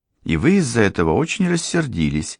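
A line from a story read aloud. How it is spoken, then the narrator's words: Innocent tone. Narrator (Russian): заметила Софи совершенно невинным голосом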